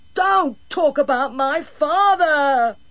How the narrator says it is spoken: he shrieked

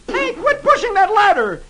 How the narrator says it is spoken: shrieks

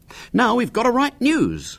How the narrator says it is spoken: said William cheerfully

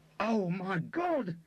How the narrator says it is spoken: he shrieked

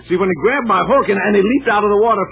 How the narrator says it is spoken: Fred yelled

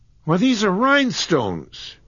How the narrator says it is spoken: cried John

